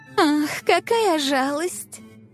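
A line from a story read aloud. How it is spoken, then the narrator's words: Mock sigh. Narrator (Russian): Притворно вздохнула она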